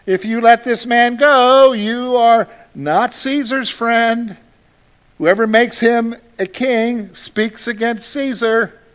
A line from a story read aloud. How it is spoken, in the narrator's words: the Jews cried out, saying